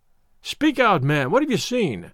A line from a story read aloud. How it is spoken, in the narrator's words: cried a husky voice